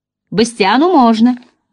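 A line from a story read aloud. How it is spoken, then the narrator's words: Dragon's exclamation. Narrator (Russian): воскликнул везучий дракон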